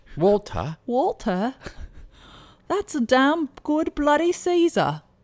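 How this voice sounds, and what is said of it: Put-on British or Australian accent. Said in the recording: “Do you want to do it with an accent... do it with an accent then... Did it sound British or did it sound... Australian?”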